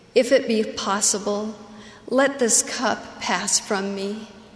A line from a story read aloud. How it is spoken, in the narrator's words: He pleaded